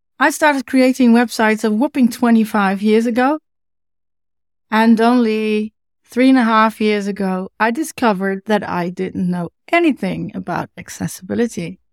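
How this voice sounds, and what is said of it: Dutch accent. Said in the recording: “originally from the Netherlands, something you can hear in my accent, obviously.”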